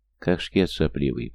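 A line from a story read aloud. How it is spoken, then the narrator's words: Affirming mumble. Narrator (Russian): пробормотал Гоша утвердительно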